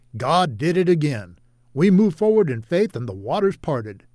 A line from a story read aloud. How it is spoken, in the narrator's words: David exclaimed